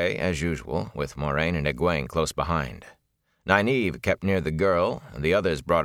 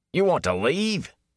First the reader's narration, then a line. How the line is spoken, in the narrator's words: he exclaimed